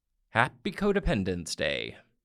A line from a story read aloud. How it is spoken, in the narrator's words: Michael shouted a message on my answering machine